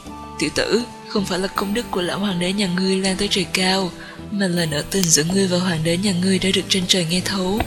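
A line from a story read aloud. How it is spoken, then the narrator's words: Sighing. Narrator (Vietnamese): Ta thầm thở dài hai tiếng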